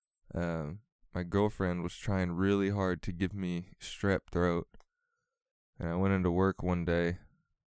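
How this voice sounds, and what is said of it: Slightly guttural, sick-sounding voice. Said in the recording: “I was sick ... my voice sounds a little different ... I got a little guttural in it”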